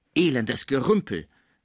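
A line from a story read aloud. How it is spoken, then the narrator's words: Exclaimed. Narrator (German): rief er, als Pons ihm den Vorgang erzählte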